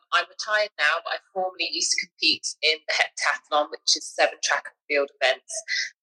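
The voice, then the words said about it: British accent. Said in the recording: “I'm a British Olympian, if you could tell by the accent already”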